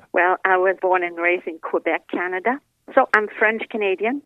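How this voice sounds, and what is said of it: French-Canadian accent, European-sounding. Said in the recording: “your accent. It is unique and European and nuanced, but it's not from Europe.”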